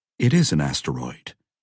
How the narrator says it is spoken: Roberta said evenly

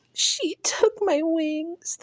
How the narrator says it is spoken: the fairy sobbed

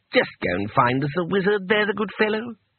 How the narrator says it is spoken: said a voice from behind the grill, as kindly as it could manage

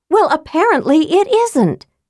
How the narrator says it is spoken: Tika snapped

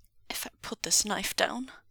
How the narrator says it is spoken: Wen Qing said, her voice trembling

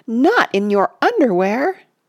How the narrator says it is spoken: cried Cuffy

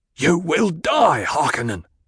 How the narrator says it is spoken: the gladiator gasped

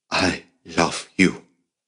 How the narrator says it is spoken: he whispered

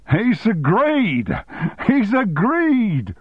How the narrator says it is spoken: She found him leaping up and down, shouting

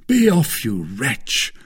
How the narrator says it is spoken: cried Aramis

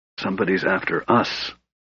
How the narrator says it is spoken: Raistlin murmured

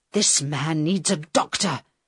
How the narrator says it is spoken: Carl said to the girl angrily

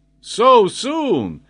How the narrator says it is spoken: exclaimed Paganel in a piteous tone

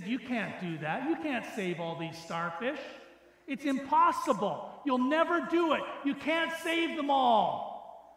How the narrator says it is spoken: laughed at him and said

